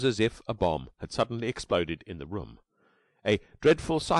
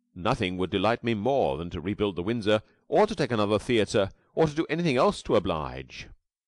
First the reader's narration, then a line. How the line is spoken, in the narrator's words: he said cheerfully